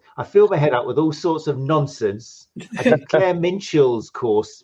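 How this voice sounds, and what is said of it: Imitates another person's accent. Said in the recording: “I can't do the accent.”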